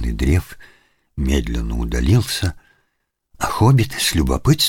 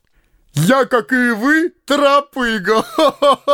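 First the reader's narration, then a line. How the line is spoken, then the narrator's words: Resonant laughter. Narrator (Russian): звучно засмеялся Ясень Бор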